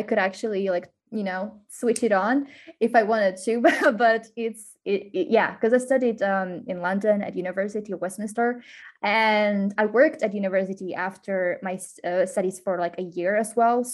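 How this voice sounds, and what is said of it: Slight British Queen's English accent. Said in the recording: “You speak very good English, but I noticed a bit of a Queen's English accent.”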